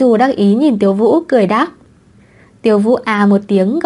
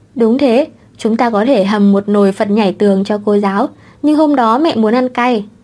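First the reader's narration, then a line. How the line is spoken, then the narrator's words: Heavy, sorrowful sigh. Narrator (Vietnamese): thở dài não nề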